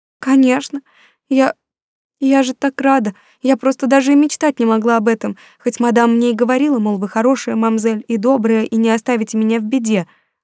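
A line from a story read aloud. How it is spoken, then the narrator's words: Sobbing girl, rapid chatter. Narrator (Russian): рыдая тараторила девочка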